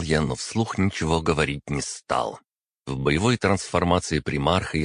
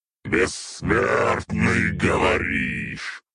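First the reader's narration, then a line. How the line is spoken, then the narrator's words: Growled. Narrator (Russian): рыкнул я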